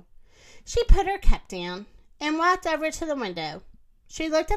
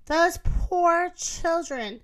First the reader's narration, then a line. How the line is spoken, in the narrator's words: said Moo